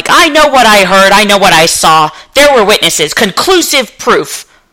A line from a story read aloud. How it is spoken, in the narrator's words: the wounded pride that keeps Romanov on the defensive, yelling